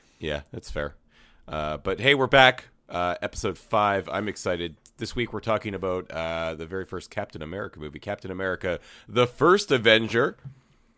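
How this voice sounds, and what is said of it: Slightly hoarse voice. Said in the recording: “I screamed real good, and my voice is a little hoarse”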